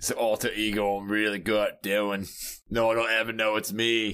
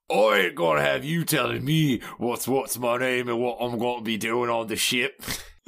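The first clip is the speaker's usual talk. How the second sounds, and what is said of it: Intimidating, scary character voice. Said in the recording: “Can I try to intimidate her right now with Slash? Because he's so scary. ... doing a great alter ego impression there”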